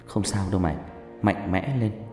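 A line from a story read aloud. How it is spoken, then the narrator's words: Comforting whisper. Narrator (Vietnamese): Dương cũng thì thầm vào tai tôi an ủi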